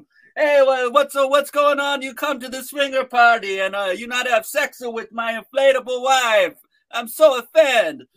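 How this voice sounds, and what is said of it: Bad put-on Italian accent. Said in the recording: “I do a terrible Italian accent”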